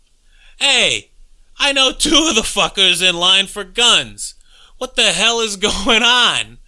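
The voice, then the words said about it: Put-on New York Bronx accent. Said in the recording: “New York pseudo-Boston accent ... that's definitely some Bronx action”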